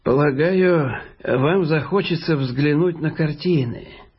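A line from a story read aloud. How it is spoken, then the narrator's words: Rather sad. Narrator (Russian): довольно грустно сказал Джеймс Хэммонд Берк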